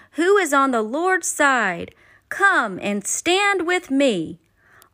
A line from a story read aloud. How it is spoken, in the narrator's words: Moses stood before the people and called out